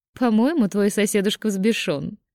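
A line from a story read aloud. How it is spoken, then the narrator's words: Giggling. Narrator (Russian): Хихикнула Аида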